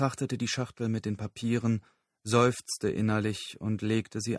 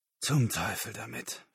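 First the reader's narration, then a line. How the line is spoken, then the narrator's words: Groaning. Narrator (German): stöhnte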